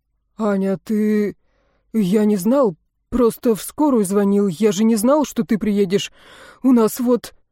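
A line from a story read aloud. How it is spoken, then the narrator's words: Uncertain mumble. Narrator (Russian): Неуверенно пробормотал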